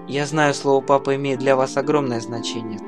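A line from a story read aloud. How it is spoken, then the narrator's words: Dry. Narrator (Russian): сухо сказала принцесса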